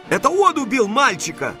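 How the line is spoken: Shout. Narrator (Russian): закричал я

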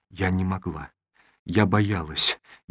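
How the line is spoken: Barely audible. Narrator (Russian): еле слышно произнесла Олеся

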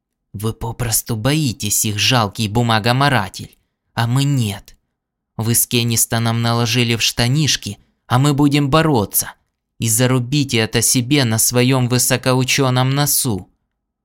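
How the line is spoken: Hissing. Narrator (Russian): он прошипел

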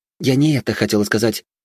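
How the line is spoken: Hurried blurt. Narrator (Russian): торопливо выпалила Ирма

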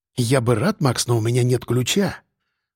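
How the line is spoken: Quiet reply. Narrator (Russian): ответил он тихо

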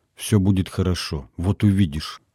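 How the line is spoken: Quiet voice. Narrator (Russian): я сказал негромко

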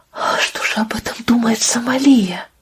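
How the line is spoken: Stunned whisper. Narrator (Russian): Пытаясь осознать столь поразительную новость, Сэдди наконец прошептала

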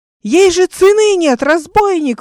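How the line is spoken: Yelling. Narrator (Russian): вопил он

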